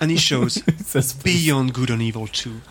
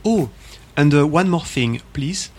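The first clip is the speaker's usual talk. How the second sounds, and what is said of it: Put-on French accent. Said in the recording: “with his lovely French accent”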